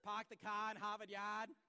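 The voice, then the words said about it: Put-on Boston accent. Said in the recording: “Got to, got to practice my, my Boston accent”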